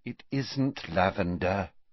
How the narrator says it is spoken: said Hermione wearily

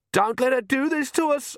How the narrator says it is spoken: Agnes shrieked

